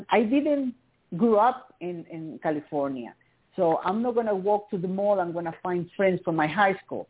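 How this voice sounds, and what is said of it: Latina immigrant accent. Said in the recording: “I'm a Latina, I have an accent, I'm an immigrant”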